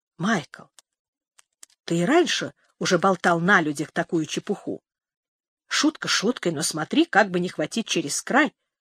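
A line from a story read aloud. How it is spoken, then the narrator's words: Woman whispering. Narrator (Russian): Женщина прошептала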